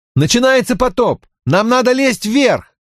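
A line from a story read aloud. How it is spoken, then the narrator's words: Shouting while running. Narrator (Russian): На бегу я кричал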